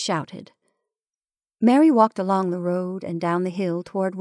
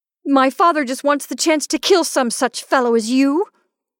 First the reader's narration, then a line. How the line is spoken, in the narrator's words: she shouted